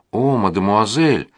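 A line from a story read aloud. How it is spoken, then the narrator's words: Pleading. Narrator (Russian): взмолилась она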